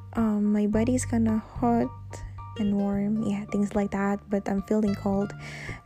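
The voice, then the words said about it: Low, sick-sounding voice. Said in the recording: “my voice is kinda low because I'm having fever right now”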